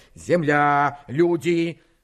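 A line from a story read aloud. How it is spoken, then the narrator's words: Breathless, gasping. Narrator (Russian): Я почти задыхался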